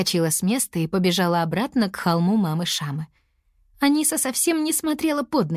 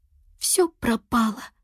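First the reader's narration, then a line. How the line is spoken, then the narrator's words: Whisper. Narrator (Russian): прошептала она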